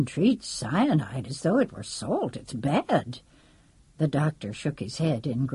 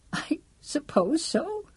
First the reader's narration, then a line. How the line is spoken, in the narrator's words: said, sobbing